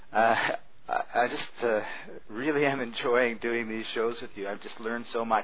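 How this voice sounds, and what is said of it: Canadian English accent. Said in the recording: “non-American English accent ... Your accent, I love it. I love the Canadian accent.”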